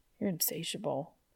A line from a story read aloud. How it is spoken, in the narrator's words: Dean mumbled